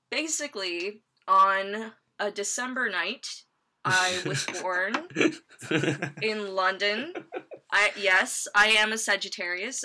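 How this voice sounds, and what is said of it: American accent. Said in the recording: “I don't sound like it ... where do they get this American woman from?”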